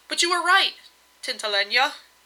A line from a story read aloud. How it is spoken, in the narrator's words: he added hastily